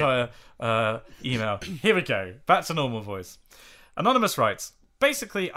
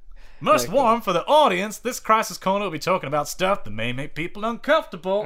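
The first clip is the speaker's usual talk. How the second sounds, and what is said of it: Super chipper put-on accent. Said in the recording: “I probably shouldn't do an accent because I imagine it's probably going to get worse from here ... also making it sound like super chipper already ... I'm glad I'm not carrying on with that accent”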